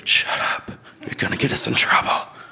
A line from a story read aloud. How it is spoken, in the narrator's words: He whispered